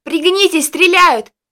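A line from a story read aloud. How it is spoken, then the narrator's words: Full-voiced yell. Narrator (Russian): Джессика, во весь голос заорала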